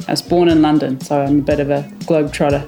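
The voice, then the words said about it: New Zealand-influenced accent. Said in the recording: “my mum is from New Zealand, hence my accent”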